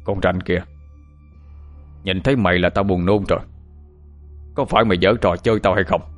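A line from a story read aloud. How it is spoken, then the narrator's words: Angry shout. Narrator (Vietnamese): ông quát lên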